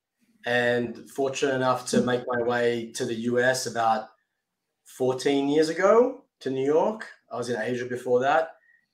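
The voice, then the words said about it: Australian accent. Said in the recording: “fantastic accent ... I'm from Sydney, Australia originally”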